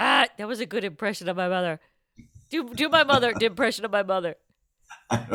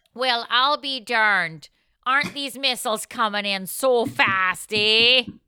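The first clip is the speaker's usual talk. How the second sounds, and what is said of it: Canadian or upstate-style accent impression. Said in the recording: “impression of my mother ... Why is she from Canada? ... everything is from either Canada or Milwaukee ... like an upstate New York”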